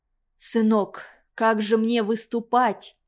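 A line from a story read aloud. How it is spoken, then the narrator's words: Whispered question. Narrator (Russian): шепотом спросил Махка-Мака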